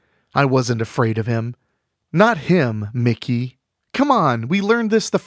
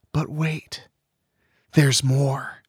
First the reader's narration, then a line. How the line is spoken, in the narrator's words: she whispered